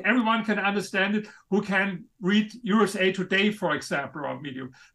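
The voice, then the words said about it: Noticeable foreign accent. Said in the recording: “in spite of my accent ... I love your accent. Your accent's badass”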